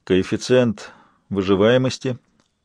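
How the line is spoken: Flat, lifeless inquiry. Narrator (Russian): безжизненным тоном осведомился он

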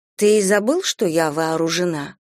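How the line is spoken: Soft inquiry. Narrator (Russian): мягко осведомилась я

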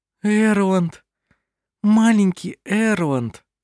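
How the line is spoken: Said tenderly. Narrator (Russian): ласково произнесла она

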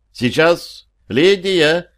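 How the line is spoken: Calling out loudly. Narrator (Russian): крикнула она куда-то в глубину дома

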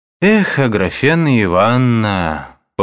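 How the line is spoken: Lazy, sighing. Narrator (Russian): повторил он лениво, вздыхая

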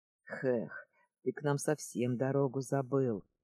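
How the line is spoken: Grumbling. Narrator (Russian): заворчал хозяин дома

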